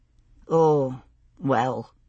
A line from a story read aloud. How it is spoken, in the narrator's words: he sighed